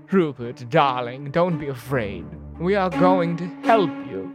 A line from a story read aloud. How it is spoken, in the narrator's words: she pleaded